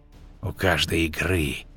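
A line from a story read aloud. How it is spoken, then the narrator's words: Hissing through clenched teeth. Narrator (Russian): прошипел он сквозь стиснутые зубы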